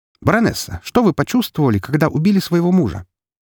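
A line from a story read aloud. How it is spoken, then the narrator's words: Boy shouting question. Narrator (Russian): Паренек в очках прокричав вопрос прямо в лицо Изабелле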